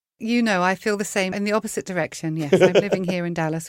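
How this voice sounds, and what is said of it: Strong English accent. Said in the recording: “my very English accent”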